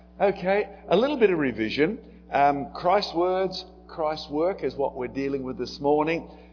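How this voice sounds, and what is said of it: Australian accent. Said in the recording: “my accent ... I couldn't do much about my accent ... very Australian phrases and very Australian words”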